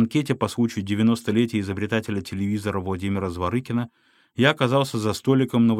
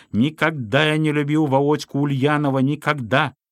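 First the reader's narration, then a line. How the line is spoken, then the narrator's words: Heated high-pitched shouting. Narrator (Russian): Разгорячившись в разговоре, кричал тенорком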